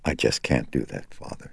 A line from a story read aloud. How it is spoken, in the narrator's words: she said, in a soft, flat, toneless voice